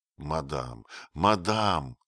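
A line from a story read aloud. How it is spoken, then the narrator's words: Miserable muttering. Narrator (Russian): бормотал Отто, чувствуя себя до нельзя несчастным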